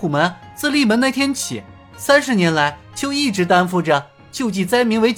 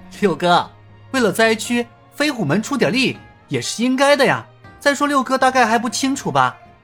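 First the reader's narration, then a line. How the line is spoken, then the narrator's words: Faint smiling tone. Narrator (Chinese): 尹建平淡淡的笑了笑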